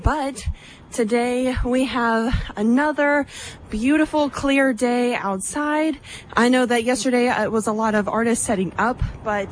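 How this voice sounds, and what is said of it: Slightly out of breath. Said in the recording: “Sorry I'm a little out of breath,”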